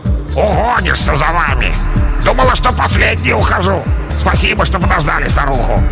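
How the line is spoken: Grumbling. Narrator (Russian): проворчала

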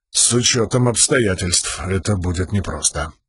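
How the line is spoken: Muttered. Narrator (Russian): пробормотал Далинор

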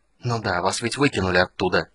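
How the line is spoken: Hissing. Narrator (Russian): прошипел маг

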